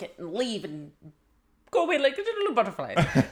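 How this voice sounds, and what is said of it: Put-on, unidentifiable accent. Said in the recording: “I don't know what accent that was.”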